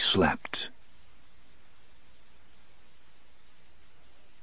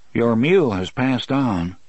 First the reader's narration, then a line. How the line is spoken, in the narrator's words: Brown said